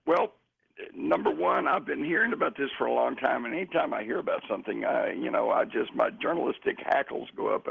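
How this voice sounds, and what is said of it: Hoarse, raspy voice. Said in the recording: “As you can hear, I'm a pony tonight... I'm a little horse... A little raspy... Little raspy, but then that's what happens when you spend a week out in the desert.”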